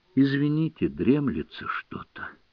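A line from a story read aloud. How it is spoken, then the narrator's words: Joyless drowsy whisper. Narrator (Russian): без каких-либо проявлений радости, лежа на диване, прошептал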